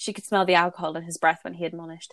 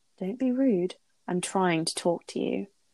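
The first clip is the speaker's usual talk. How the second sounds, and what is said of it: Creepy male character voice. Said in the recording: “that was his creepy voice. You're doing your voice well.”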